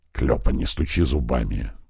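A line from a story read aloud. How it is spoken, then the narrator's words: Hissing. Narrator (Russian): тут же зашипел на него грач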